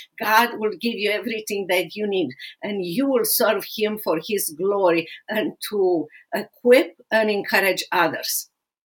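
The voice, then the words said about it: Speaks English with an accent. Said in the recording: “I have an accent”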